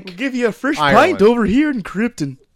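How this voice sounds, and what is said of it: Poor put-on Irish accent, Muppet-like. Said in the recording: “That wasn't even an Irish accent. ... It sounded like a Muppet. ... Kryptonian accent.”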